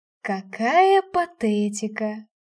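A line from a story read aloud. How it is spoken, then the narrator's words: Mocking tone. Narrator (Russian): насмешливо произнес генерал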